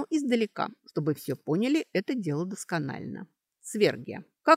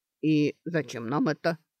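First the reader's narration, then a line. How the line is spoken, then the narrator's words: Grumbling orc. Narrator (Russian): проворчал орк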